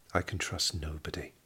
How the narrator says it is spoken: murmured

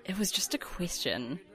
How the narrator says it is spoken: Roach muttered

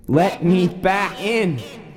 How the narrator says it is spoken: screaming

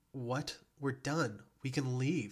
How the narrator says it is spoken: she exclaimed, distress flooding her voice

